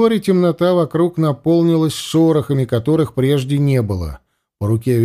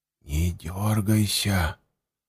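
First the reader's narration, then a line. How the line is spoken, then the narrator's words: Whisper from behind. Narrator (Russian): раздался сзади шепот Андема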